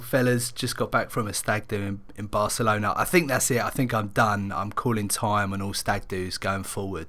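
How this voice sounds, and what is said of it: Slightly croaky hoarse voice. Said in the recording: “As you can hear, I'm a little bit croaky as well.”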